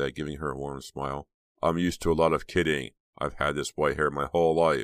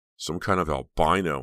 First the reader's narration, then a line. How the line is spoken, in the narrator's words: Uncle James muttered